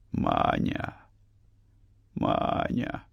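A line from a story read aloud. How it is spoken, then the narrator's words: Desperate whisper. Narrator (Russian): шептал он в отчаянии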